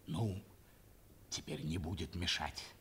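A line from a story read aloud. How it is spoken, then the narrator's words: Hurried whisper. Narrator (Russian): прибавил торопливо еще шепотом гарнизонный офицер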